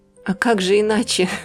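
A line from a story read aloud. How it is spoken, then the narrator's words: Old man laughing. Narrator (Russian): рассмеялся старик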